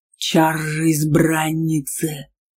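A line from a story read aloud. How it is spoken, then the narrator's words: Growling. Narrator (Russian): Аргар рычал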